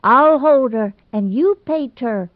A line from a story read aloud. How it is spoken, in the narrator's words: Ivy shrieked vainly in despair